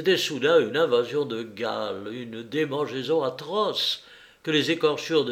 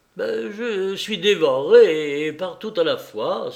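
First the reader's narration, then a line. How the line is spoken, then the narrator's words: Young man exclaiming. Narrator (French): s'écria le jeune homme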